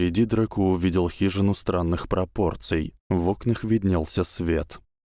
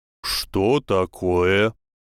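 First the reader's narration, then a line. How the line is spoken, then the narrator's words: Loud rough half-giant voice. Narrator (Russian): спросил громким грубым голосом полувеликана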